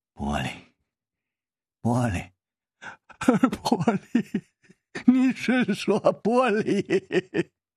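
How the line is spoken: Voice trembling with fear. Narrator (Chinese): 马索吓得声音都颤了

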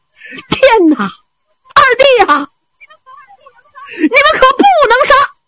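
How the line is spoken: Loud shouting. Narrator (Chinese): 小白龙方天画高声喊嚷

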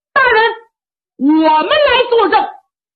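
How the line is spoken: Loud shout from below. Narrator (Chinese): 就听下边有人高喊

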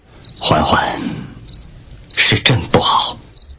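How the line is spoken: Whispered apology. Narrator (Chinese): 她低声在我耳边忏悔

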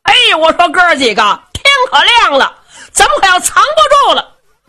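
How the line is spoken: Loud shouting from inside. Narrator (Chinese): 程咬金在里边高声喊嚷

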